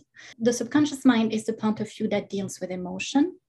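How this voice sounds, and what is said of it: French accent. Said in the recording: “I do that with a French accent”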